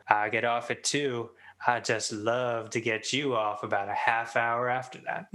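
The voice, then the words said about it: Impression of character Steve's accent. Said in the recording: “That's great, that accent that you used. ... That was a pretty good Steve”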